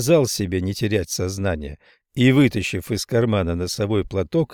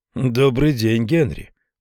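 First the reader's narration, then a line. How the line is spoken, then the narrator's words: Grumbling mutter. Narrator (Russian): буркнул Кьюин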